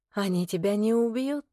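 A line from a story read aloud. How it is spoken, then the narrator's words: Whisper. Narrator (Russian): шепнула Вероника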